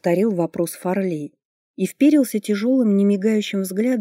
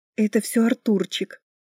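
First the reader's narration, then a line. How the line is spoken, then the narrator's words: Whispering. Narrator (Russian): прошептала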